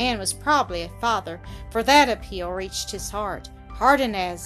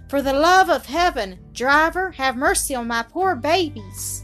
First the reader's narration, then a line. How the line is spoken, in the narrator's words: in a sort of desperation, she shrieked to the man